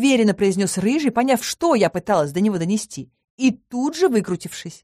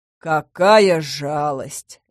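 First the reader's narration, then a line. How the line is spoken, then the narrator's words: Icy tone. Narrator (Russian): ледяным тоном произнес Харн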